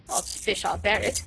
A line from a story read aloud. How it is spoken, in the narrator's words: said Sir Andrew with a merry laugh